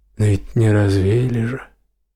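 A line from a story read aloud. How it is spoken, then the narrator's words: Quiet gloomy old man. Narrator (Russian): тихо и мрачно отвечал дед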